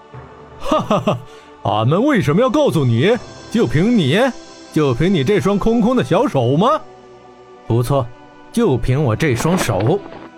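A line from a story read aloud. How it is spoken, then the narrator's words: Roaring laughter. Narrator (Chinese): 大漠金蝎哈哈大笑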